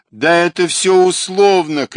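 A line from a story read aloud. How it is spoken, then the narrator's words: Shout. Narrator (Russian): крикнул Шпрух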